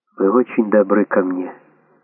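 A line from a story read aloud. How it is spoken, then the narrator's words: Barely audible. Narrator (Russian): еле слышно сказала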